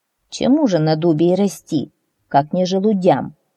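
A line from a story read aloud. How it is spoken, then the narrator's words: Plain. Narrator (Russian): сказал садовник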